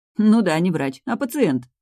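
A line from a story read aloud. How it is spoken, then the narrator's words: Laughing. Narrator (Russian): засмеялась подруга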